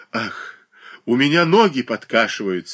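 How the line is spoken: Sobbing. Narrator (Russian): рыдала Павла Абрамовна

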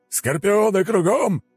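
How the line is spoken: Loud booming bark. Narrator (Russian): зычно рявкнуло

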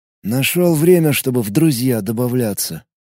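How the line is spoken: Grumbled. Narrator (Russian): проворчал граф

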